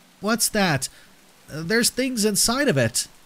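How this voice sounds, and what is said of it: Panicked child's voice. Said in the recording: “asked in a panicked voice”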